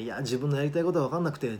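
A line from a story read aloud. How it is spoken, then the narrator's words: Plain. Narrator (Japanese): って言ってたら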